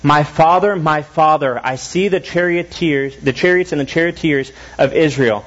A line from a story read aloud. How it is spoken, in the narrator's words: he cried